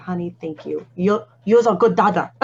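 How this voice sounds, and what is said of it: Imitated Asian accent. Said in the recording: “in her Asian accent.”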